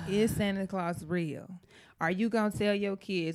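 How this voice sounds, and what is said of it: Put-on St. Louis accent. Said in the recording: “Let me bring out my St. Louis accent for this.”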